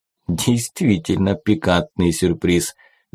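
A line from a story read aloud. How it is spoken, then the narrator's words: Laughing. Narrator (Russian): засмеялся Джебедая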